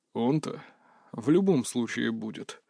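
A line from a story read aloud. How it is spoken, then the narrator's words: Gloomy assurance. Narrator (Russian): мрачно заверил его босс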